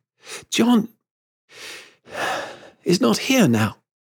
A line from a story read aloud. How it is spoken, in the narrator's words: gasped